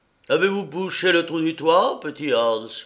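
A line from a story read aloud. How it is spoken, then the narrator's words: Cheerful shout, miller. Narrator (French): cria le meunier d'une voix gaie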